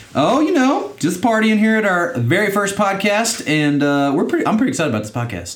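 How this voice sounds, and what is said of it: Stereotypical podcast-host voice. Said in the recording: “it sounds super stereotypical podcasty and daddy-like ... my podcast voice”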